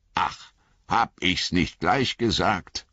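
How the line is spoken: Growling. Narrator (German): knurrte Gimli

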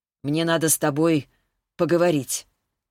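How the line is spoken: Strangely tense voice. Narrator (Russian): сказала она каким-то странно напряженным голосом

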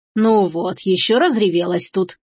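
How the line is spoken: Grandmother's grumbling. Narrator (Russian): ворчала бабушка

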